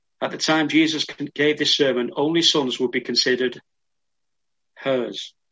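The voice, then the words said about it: Speaks with a noticeable accent. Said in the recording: “you'll have to excuse my accent”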